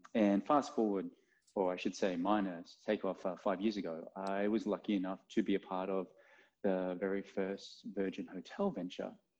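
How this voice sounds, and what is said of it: Australian accent. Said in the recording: “As you can tell, I'm not from the suburbs or ... Accent? ... Yeah, no. So I born and raised in Australia.”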